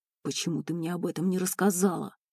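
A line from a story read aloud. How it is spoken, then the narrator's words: Growl. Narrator (Russian): прорычал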